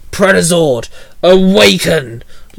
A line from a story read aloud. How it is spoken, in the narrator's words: Logan barked